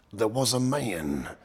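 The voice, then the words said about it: Cold put-on American accent. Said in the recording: “me talking in a sort of cold American accent”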